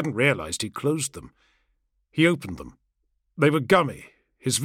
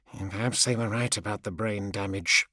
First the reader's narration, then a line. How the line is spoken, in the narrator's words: in a mumble